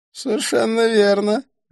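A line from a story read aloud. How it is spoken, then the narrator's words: Laughing. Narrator (Russian): рассмеялся Идрис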